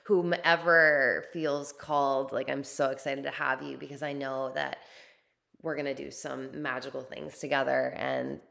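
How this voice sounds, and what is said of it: Slightly raspy, strained voice. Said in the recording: “my voice is a little raspy still and starting to hurt a little bit”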